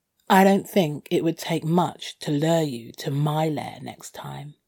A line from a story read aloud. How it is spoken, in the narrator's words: I purred